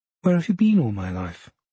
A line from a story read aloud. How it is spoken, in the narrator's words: she looks up brightly and says